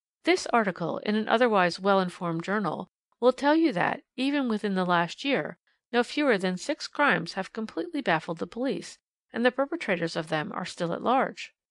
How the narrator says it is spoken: she remarked kindly but authoritatively

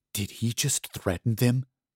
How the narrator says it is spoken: Charlie whispered

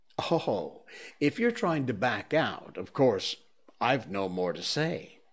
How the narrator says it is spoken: said the young seal with an ugly chuckle

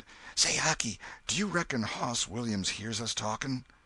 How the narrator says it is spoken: whispered

